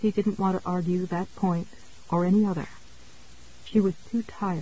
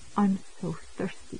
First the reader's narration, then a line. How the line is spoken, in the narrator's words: she said mournfully